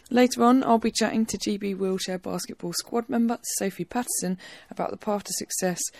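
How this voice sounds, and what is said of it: Slightly raspy, sore-throated voice. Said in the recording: “you might be able to hear I've got a bit of a sore throat today ... slightly raspy voice”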